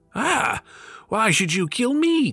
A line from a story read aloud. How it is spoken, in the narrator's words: cried the fisherman